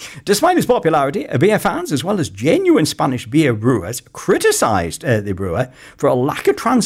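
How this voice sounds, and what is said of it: Usual voice. Nothing is said of it.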